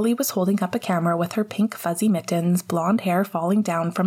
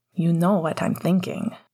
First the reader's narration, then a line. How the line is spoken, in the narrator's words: Sirius said quietly